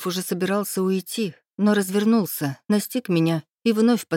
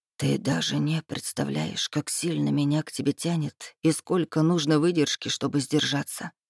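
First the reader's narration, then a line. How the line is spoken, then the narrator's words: Whisper. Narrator (Russian): прошептал он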